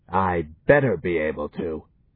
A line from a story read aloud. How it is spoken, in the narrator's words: snarled Turl illogically